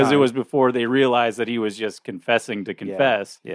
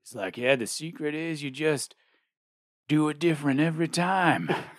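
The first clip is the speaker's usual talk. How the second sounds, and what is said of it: Imitates another person's voice. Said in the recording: “That's my Michael Rooker impression. ... That's like your every impression.”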